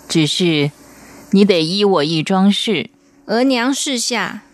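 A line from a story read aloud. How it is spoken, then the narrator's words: Slow, sighing. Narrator (Chinese): 太后暗自嗟叹，缓缓的说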